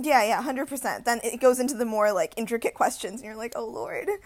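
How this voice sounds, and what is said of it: American-sounding accent. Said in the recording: “went to an American school, that's where the accent comes from”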